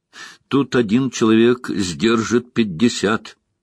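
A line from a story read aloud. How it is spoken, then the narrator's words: Plain. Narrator (Russian): сказал Инктор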